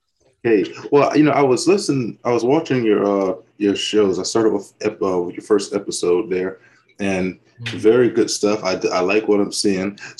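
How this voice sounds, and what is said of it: Slow Southern drawl. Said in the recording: “dialect is a little too much southern drawl ... I do talk rather slowly”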